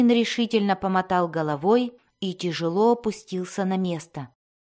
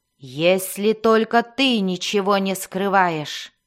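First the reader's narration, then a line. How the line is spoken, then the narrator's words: Icy, angry growled threat. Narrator (Russian): Зарычала мать Мелис на Дайнина, и это прозвучало такой ледяной и злой угрозой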